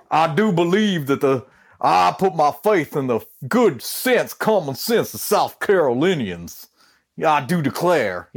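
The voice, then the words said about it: Exaggerated Southern drawl cartoon rooster voice. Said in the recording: “all of a sudden he talked like Foghorn Leghorn all the time ... he talks like Foghorn Leghorn all the time ... a little bit of a Southern drawl”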